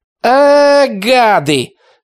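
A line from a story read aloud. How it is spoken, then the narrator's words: Shout. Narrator (Russian): кричала Аннушка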